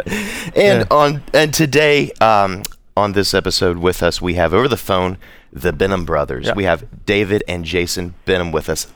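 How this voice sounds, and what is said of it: Polished radio announcer voice. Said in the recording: “You have the best radio voice of all time. ... Your radio voice is incredible.”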